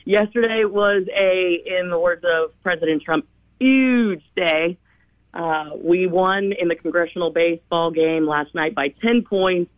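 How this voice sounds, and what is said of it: Sounds a little tired. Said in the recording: “You sound a little tired.”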